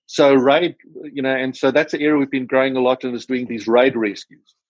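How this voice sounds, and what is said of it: South African accent. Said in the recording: “my South African accent”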